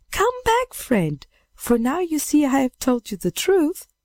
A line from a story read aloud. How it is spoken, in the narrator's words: the maiden saw him flying away, she thought at first that he was still in play, and cried